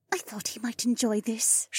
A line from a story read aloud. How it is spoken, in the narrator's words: she murmured back